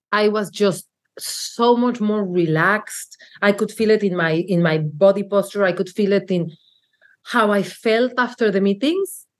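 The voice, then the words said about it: Speaks English with a foreign accent. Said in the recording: “I love your accent.”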